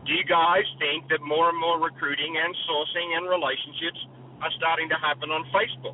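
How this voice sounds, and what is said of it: Australian accent. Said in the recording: “talk like an Australian? ... I've gone to professionals to lose my accent, and they can't fix it.”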